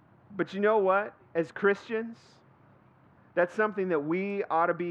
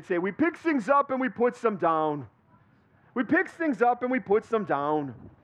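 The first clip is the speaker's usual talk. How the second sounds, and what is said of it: Bad put-on Austrian accent. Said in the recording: “they would dress up as Hans and Franz ... I know I'm a horrible Austrian accent.”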